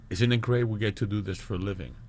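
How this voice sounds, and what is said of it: English accent with Mexican tinge. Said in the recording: “That's a good English accent there. ... Somewhere cross between a Mexican accent, Chilango ... Chilango Brit.”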